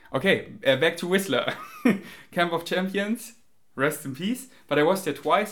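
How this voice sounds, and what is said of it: Non-native English accent. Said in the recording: “I'm sorry for my accent. If it triggers you, I'm really sorry. ... I don't try to sound fake. ... I can really improve my with pronunciation.”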